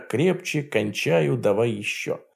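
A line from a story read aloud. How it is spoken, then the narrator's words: Muttering in climax. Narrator (Russian): она кончает, бормоча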